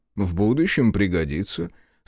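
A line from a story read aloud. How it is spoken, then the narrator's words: Calm. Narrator (Russian): спокойно объяснил Винчи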